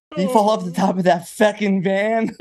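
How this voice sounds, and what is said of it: Super thick Boston accent. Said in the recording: “With his super thick Boston accent.”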